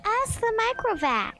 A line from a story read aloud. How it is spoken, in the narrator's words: wailed Geraldette 1